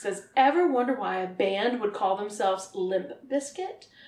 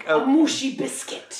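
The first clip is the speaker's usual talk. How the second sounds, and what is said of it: Put-on Russian accent. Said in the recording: “I'm going to sound Russian.”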